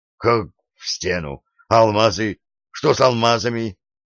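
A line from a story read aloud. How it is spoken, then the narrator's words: Exclamation. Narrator (Russian): воскликнул Джо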